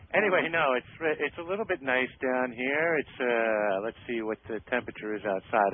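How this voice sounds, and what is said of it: New York accent. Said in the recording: “It's that New York accent”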